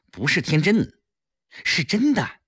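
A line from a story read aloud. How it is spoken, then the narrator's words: Hurried explaining. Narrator (Chinese): 顾青急忙解释道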